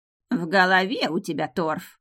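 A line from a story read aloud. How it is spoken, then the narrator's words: Grumble. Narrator (Russian): проворчала старшая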